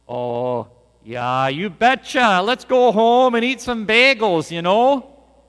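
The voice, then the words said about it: Put-on Wisconsin accent. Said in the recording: “a Wisconsin accent ... I still got it”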